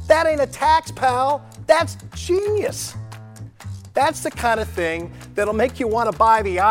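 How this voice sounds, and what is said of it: Usual voice. Nothing is said of it.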